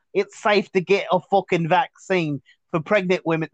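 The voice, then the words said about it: Attempted Australian accent, sounds British. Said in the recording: “I sound British right now. I can't do it. ... Australian accent.”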